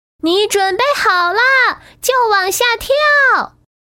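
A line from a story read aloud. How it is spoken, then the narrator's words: Loud shout. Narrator (Chinese): 其他玩具对小憨大声喊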